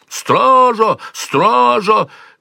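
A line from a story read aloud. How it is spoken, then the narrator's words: Yelling at full voice. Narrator (Russian): во всю глотку орал вошедший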